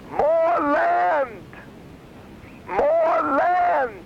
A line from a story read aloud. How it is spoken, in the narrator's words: a little guy, like a little person dressed in rags, shouts out from the back